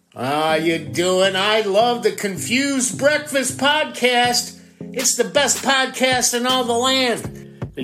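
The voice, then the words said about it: Shouting. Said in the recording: “I don't know why I'm shouting, but I'm shouting.”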